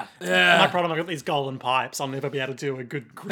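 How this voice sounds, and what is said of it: Usual voice. Nothing is said of it.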